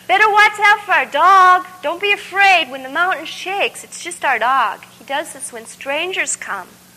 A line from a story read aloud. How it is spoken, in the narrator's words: they yelled ahead